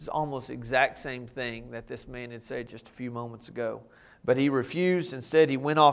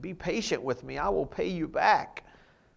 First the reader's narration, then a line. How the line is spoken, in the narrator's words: fell to his knees and begged him